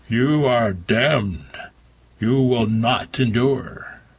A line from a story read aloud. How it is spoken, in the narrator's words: boomed